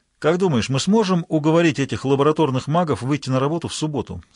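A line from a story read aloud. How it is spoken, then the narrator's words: Plain. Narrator (Russian): спросил он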